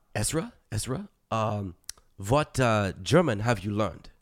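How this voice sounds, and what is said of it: Classic German accent in English. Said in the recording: “that's the classic sort of, you know, German accent”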